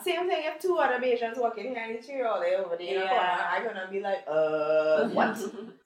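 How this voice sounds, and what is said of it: Trinidadian accent. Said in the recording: “my Trini accent”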